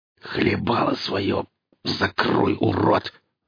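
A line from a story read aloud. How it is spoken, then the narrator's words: Hissed. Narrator (Russian): зашипел Еремин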